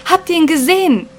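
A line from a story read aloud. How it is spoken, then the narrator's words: Group screaming. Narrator (German): schrien sie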